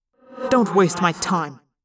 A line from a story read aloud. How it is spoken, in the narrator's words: I snapped, trying to sound strong and unafraid